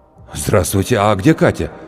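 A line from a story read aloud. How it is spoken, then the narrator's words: Breathless blurt. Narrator (Russian): выдохнул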